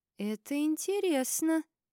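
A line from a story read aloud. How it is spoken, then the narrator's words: Thoughtful drawl. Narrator (Russian): протянула задумчиво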